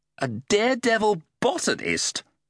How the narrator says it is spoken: scoffed Maggot

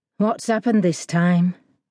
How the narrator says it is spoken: asked Drew with a sigh

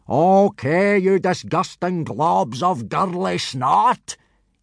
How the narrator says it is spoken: yelled Gobber, in a bellow so loud it could be heard several miles away

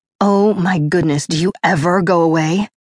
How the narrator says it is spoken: I snarled

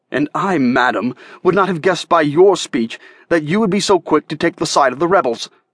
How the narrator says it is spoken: I said fiercely

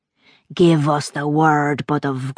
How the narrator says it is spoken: growled Mir the Proud

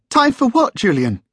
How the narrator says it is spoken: asked Jamie's mum, her voice tight and high-pitched

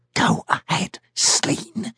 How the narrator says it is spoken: whispered the keeper

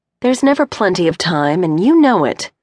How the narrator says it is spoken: Cindy answered playfully

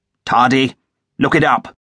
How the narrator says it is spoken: Tobias Tate shouted after him

